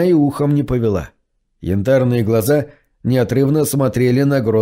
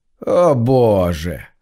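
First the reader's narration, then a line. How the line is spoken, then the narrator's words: Sarcastic sigh. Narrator (Russian): с сарказмом вздохнул парень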